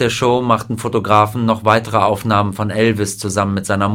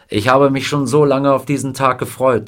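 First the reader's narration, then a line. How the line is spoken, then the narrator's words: Plain. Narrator (German): sagte er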